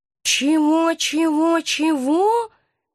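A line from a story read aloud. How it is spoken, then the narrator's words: Hoarse astonished voice. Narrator (Russian): донесся из клетки хриплый от удивления голос профессора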